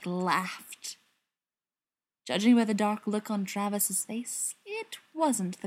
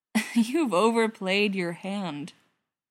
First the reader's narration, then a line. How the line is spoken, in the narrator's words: he said, after the last of the laughter finally died down